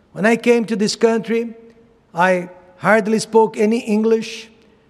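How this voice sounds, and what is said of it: Non-native English accent. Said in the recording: “when people ask me where I am from because of my accent”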